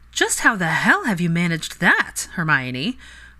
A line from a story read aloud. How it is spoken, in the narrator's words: Parvati scoffed